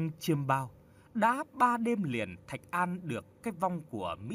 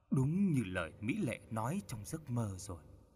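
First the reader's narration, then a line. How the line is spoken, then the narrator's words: Dazed mumble. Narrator (Vietnamese): Chính Thạch An đứng ngẩn ngơ rất lâu, anh lẩm bẩm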